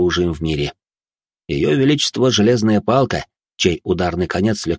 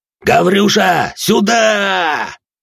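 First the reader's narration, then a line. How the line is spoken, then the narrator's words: Yelling. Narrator (Russian): заорал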